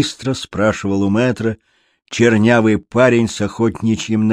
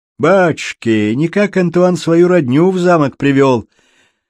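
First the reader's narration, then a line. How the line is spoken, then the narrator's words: Laughing youth. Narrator (Russian): Смеясь, говорил парнишка, чуть старше меня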